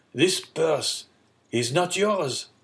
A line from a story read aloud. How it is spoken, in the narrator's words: cried Morel